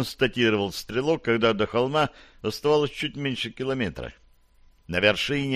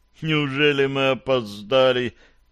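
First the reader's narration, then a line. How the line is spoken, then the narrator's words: Moaning. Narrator (Russian): простонал Гарри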